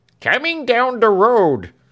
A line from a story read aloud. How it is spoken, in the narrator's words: cried Britain